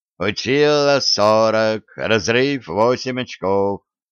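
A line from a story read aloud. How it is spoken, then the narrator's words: Singsong chant. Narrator (Russian): Краснолицый мужчина на высоком стуле произнес нараспев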